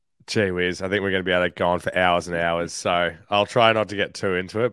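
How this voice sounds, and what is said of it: Hoarse, strained voice. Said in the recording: “as you can hear, my voice is still recovering a little bit... almost lost my throat there at a few stages”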